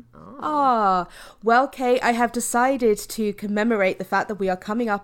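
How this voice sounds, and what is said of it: British accent. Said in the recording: “your British accent”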